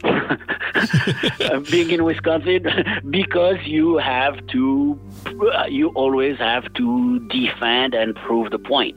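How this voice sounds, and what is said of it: French accent. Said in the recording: “I'm the only one stuck with a French accent.”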